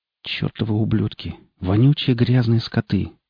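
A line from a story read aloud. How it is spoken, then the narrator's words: Whispered under breath. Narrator (Russian): шептал я себе под нос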